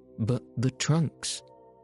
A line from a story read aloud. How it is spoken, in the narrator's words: gasped Passepartout